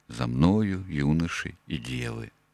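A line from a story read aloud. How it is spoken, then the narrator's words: Calm whistling under breath. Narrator (Russian): Спокойно насвистывал он себе под нос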